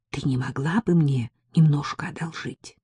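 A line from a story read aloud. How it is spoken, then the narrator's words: Whispered question. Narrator (Russian): Внезапно она перешла на шепот и спросила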